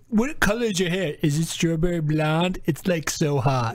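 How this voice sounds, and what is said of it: Impression of another person. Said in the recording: “Can I do an impression of Finley real quick?”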